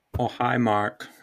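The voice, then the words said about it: Imitates another person's odd accent. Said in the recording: “Did you do the accent and everything? ... he's got this odd accent”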